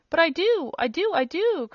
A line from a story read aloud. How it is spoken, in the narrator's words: cried the little man, interrupting him